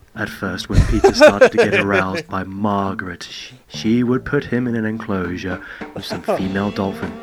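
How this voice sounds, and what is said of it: Put-on sexy voice. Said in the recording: “can you put on your sexy Grax voice for this bit, please?”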